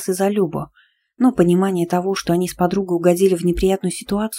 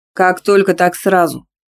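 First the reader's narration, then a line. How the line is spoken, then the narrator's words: Smirking, mocking. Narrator (Russian): Ухмыльнулся качок и насмешливо повторил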